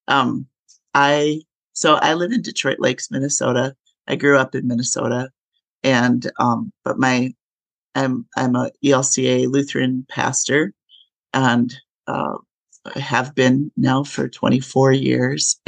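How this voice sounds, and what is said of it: Gravelly voice from a cold. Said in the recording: “I have a cold right now. So my voice, I sound a little bit more gravelly than I usually do.”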